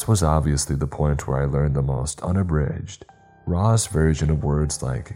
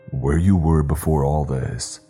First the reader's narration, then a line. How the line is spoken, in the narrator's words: bellowed the voice, proudly